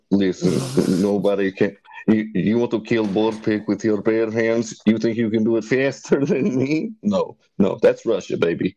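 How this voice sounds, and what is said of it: Put-on Russian accent. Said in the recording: “Which accent will you be stuck with forever? Russian or French? ... Russian is the best goddamn accent that anyone can ever have.”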